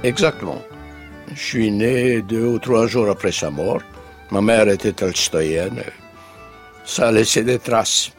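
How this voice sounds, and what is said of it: French with a Russian accent. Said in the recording (French): “il me reste un indécrottable accent russe”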